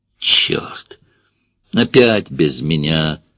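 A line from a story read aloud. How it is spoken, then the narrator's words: Groaning. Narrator (Russian): простонал Соболев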